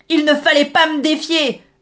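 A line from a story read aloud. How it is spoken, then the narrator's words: Boy roaring. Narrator (French): rugit le garçon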